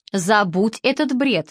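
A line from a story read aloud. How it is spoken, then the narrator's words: Plain. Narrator (Russian): сказал папа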